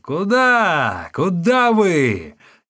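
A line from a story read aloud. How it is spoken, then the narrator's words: Shouting after them. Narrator (Russian): Усун кричал им вдогонку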